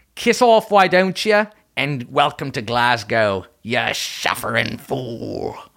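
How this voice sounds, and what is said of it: Bad put-on British accent. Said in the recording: “God, that was bad. I don't even think you can do a regular fucking English accent.”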